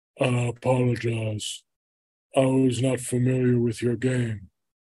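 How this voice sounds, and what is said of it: Imitates another person's voice. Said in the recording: “I'm going to do my Shaq impression.”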